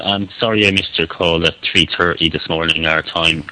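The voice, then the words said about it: Strong, hard-to-understand Irish accent. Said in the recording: “That's a real Irish accent ... That is a real Irish accent ... Like, it's unintelligible. You can't understand what he's saying.”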